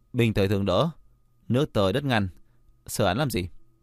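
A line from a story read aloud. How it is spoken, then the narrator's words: Sighing. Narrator (Vietnamese): Long Trì thở dài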